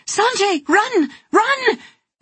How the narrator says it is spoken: She cried out again

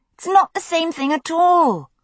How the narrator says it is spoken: Brianna snapped

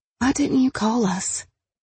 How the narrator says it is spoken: Tawny whispered

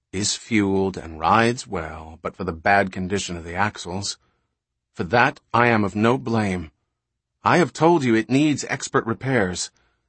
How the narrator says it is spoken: he said sullenly

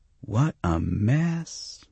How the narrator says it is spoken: one of the angels said, her voice far off but low and rich and very clear

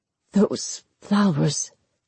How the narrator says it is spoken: he said hoarsely

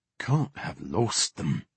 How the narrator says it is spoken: Edric muttered

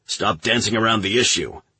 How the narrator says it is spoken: the admiral snapped

